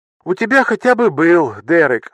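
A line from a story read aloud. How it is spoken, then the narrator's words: Sigh. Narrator (Russian): вздохнула она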